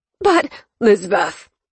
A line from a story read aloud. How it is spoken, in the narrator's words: the man grunted out